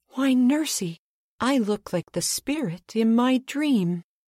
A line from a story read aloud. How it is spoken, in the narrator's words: exclaimed